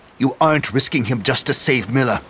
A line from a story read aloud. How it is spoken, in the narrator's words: snapped St